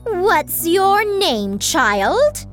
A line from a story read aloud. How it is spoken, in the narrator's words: shouted the queen